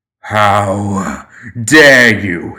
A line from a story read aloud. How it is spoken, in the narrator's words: he snarled